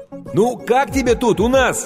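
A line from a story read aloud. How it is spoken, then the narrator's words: Shouted over loud noise. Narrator (Russian): крикнул Стэн ей прямо в ухо, поскольку уровень грохота в зале неуклонно возрастал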